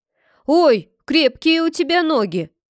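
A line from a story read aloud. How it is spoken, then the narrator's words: Pained yell. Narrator (Russian): завопил мальчишка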